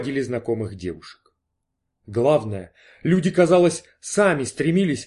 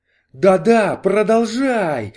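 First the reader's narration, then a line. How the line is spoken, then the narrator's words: Ecstatic exclamation. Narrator (Russian): в экстазе воскликнул Кордл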